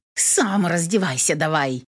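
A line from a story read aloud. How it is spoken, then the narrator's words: Snappish retort. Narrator (Russian): Огрызнулась я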